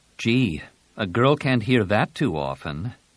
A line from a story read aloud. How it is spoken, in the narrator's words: Jaina said dryly